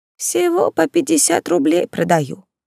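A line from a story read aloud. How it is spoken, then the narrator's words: Sad smiling old woman. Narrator (Russian): грустно улыбнулась старушка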